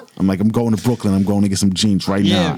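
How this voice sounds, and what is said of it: Put-on New York accent. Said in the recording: “I'm New York ... then you're New York.”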